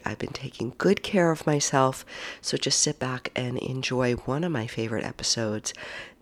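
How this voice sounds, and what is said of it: Low-energy, unwell-sounding voice. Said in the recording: “I am on day 5 of this lovely COVID ... as you can hear from my voice, I don't have my mojo”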